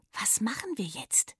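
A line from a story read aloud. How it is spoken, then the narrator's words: Trembling whisper. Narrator (German): flüsterte sie und versuchte nicht mehr so stark zu zittern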